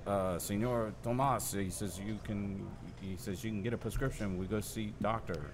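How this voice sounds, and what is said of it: Put-on Mexican accent. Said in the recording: “do the whole thing in the Mexican accent. Because you drop the Mexican accent.”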